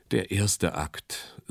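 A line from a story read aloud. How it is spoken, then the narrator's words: Sighing. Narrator (German): seufzte er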